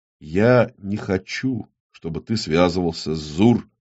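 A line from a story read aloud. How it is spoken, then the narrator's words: Calm reply. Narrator (Russian): спокойно ответил Ермолай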